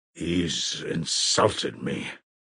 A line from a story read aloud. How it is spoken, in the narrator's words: Grigory articulated gloomily and distinctly